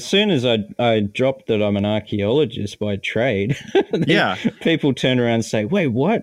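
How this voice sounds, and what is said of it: Australian accent. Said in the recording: “your Australian accent comes out”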